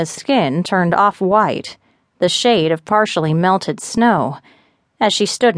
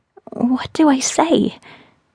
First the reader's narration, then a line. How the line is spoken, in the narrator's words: she whispered